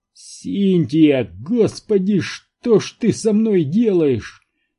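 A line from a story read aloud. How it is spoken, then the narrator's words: Groaning. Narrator (Russian): простонал Барри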